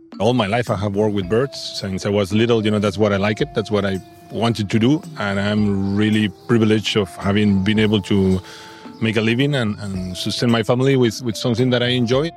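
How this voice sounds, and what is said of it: Spanish accent. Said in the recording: “That's not a New Zealand accent. is Spanish.”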